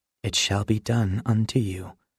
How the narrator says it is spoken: the Spirit whispered

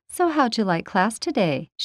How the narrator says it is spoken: She asked sweetly

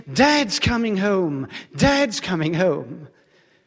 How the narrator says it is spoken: my mother joyfully exclaimed

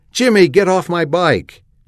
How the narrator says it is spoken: Janie shrieked

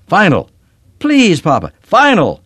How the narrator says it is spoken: screamed

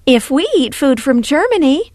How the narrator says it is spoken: Taylor practically shouted

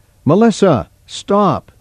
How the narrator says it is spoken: She called out

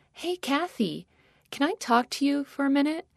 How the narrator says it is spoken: a voice from behind me timidly asked

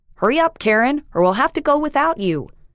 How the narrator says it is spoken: Jim shouted to me

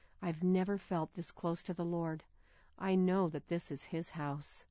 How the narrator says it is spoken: Walking reverently beside her father, she whispered

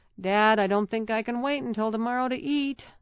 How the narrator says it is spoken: moaned

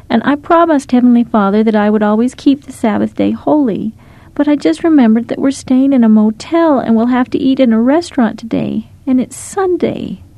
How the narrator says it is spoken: Lara sobbed

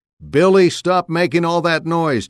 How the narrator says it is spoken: Taylor yelled

